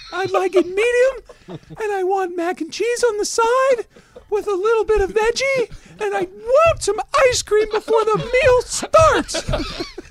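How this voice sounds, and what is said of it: Imitates another person's higher voice. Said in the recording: “Does he have a higher voice than his wife? ... I just feel like this is what it would sound like.”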